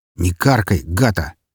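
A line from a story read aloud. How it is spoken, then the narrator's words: Plain. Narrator (Russian): ответил ей красный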